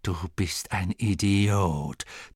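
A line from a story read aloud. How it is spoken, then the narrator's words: Female hiss. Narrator (German): zischte sie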